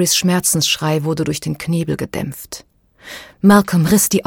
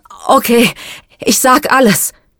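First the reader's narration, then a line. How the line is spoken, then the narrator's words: Panting out. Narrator (German): brachte er keuchend hervor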